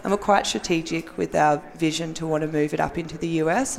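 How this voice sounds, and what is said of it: Australian accent. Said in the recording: “if you can't understand from the accent, I'm Australian.”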